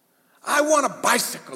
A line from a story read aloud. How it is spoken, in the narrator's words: he screams